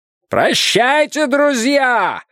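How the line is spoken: Powerful shout. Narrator (Russian): мощным голосом крикнул им Слоттер

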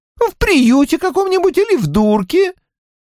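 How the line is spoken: Irritated explanation. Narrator (Russian): раздраженно объяснила она, как будто Страйк тупил

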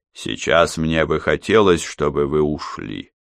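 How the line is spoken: Even voice. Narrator (Russian): ровным голосом произнес он

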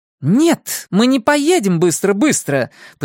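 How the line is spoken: Impatient shout. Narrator (Russian): потеряв терпение, закричала Трейси

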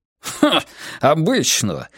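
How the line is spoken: Scornful snort. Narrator (Russian): фыркнул Штурмхонд

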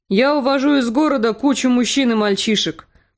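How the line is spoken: Grumbling. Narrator (Russian): проворчал Йорн

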